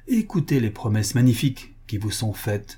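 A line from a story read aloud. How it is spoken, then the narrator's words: Imposing tone. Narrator (French): lui dit-elle d'un ton imposant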